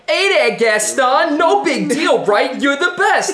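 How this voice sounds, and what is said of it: Put-on Brooklyn New York accent. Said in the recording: “New Yorkers in Disney movies ... what French accent is that? Like, LeFou's from Brooklyn”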